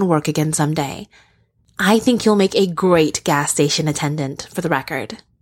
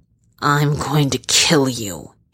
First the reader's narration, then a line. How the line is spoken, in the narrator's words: he snarls